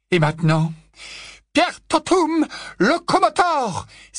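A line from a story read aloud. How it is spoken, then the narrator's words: Exclaiming. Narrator (French): s'écria le professeur McGonagall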